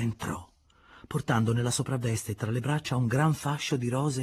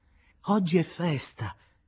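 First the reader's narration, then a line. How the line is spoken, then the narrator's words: Laughing. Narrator (Italian): la disse ridendo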